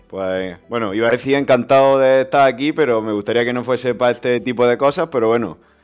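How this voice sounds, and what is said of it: Galician Spanish accent. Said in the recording (Spanish): “tu acento gallego”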